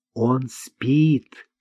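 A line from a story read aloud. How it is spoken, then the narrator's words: Quiet. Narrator (Russian): тихо сказал Марк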